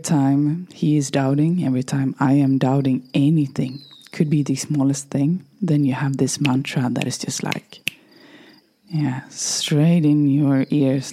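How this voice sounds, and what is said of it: Strained, fading voice. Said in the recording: “my voice is a little bit, yeah, it's leaving me nowadays ... I'm talking too much ... I don't care about this voice”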